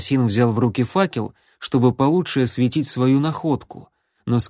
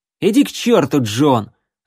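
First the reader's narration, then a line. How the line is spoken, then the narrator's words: Irritated curt retort. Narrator (Russian): раздраженно бросил Рексволд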